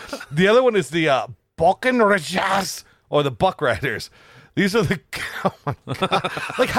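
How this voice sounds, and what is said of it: Usual voice. Nothing is said of it.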